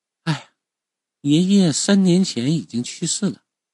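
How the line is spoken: Sad sigh. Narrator (Chinese): 母亲表情是为之一暗，叹了一声气

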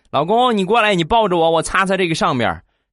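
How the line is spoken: Calling out. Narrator (Chinese): 媳妇儿够不着就过来喊我

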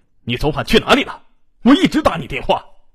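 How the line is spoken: Anxious, angry yelling. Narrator (Chinese): 王洪生既着急又生气的冲他吼

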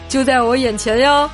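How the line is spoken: Laughing. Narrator (Chinese): 无忌笑着对女孩说

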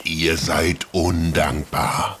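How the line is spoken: Terrible beastly voice. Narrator (German): sagte das Biest mit einer schrecklichen Stimme

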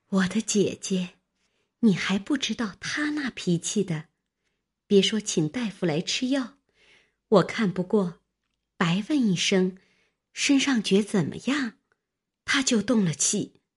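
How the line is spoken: Sighing. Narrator (Chinese): 平儿叹道

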